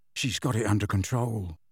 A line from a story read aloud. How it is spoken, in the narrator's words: Ron muttered to Harry